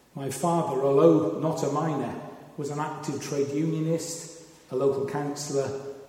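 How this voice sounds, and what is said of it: South Wales Valleys accent. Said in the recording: “as you have worked out from my accent, I grew up in the South Wales Valleys”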